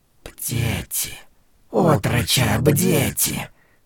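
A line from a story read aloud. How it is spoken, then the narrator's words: Whispered. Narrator (Russian): шепнула она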